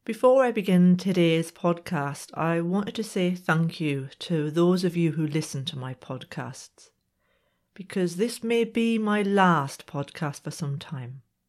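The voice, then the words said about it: Slightly congested voice. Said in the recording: “I have a little bit of a cold today, so if I sound a bit different”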